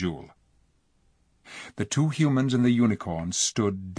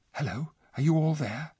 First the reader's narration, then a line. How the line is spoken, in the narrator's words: a voice whispered